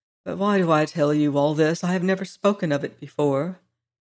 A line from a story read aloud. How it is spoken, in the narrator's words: added more quietly